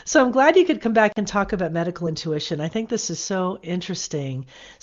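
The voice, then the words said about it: Slightly deeper voice, congested. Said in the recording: “I'm kind of fighting a little bit of a cold, so maybe my voice sounds a little deeper than usual.”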